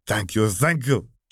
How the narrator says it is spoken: she exclaimed

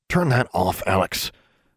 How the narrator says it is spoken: Maximilian snapped

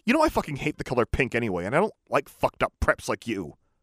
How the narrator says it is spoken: I snapped

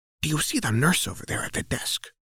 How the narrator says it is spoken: She whispers into your ear

